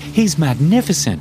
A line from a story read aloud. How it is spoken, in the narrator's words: Rita exclaimed in excitement